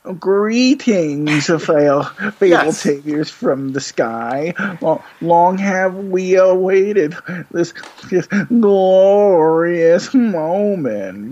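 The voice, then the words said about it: Droopy Dog impression. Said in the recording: “I kind of assumed like he talked like Droopy Dog... That's exactly how I pictured it. That was very good.”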